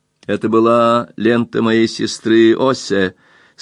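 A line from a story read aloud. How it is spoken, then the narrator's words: Said laughing. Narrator (Russian): сказала смеясь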